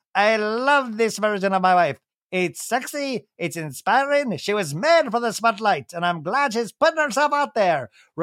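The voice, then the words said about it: Leprechaun-style voice for Brock. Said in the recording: “I can't do a Brock imitation, so I just do a little leprechaun.”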